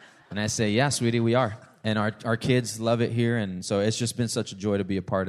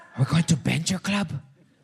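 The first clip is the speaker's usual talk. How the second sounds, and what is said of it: Put-on Hispanic accent. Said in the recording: “She doesn't have the Hispanic accent, but I have to.”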